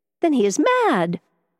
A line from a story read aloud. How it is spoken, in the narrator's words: exclaimed Catherine